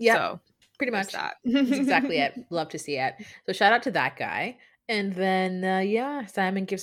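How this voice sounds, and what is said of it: Usual voice. Nothing is said of it.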